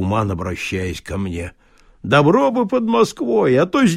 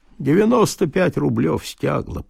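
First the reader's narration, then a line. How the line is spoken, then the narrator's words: Mutter. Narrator (Russian): пробормотал Влас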